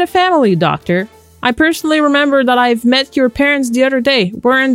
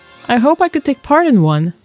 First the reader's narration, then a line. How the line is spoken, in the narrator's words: sighed Bashir